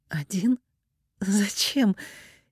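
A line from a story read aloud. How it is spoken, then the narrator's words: Exhale, nervous laugh. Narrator (Russian): Ирина выдохнула и нервно рассмеялась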